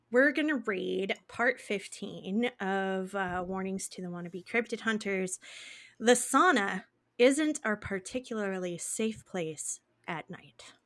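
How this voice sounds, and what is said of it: Scratchy, worn voice. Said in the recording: “Excuse my voice. I've been talking a lot today and now my voice is a little scratchy”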